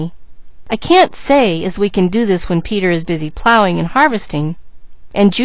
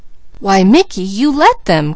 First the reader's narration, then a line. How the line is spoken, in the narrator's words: cried Peaches